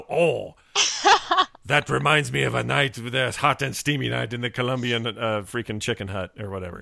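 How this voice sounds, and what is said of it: Put-on French accent. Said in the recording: “That was a little French accent”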